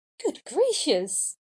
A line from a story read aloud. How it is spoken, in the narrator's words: cried Belle